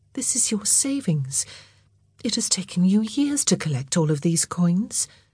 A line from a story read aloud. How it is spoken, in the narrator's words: said gently